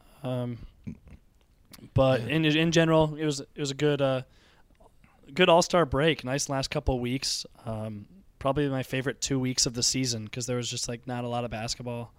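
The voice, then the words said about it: Hoarse, weakened voice. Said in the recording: “I'm doing a little better than I sound. I lost my voice this weekend. I got a little sick ... I kind of sound terrible, though”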